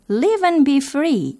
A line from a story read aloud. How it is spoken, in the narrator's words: they cried